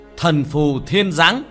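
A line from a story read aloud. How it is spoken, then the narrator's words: Loud shout. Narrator (Vietnamese): hét lớn một tiếng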